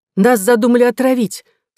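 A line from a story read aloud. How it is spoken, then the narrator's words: Horrified exclamation. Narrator (Russian): с ужасом воскликнула она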